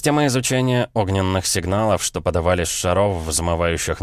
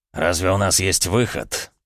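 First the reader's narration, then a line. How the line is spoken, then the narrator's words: Angry, through clenched teeth. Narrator (Russian): зло процедил сквозь стиснутые зубы Мятлев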